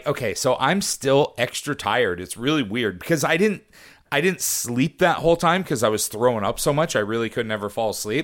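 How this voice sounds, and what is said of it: Rough, scratchy voice. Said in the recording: “You still sound a little rough ... my voice is still scratchy”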